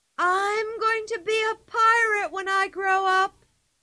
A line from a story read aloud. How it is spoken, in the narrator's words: cried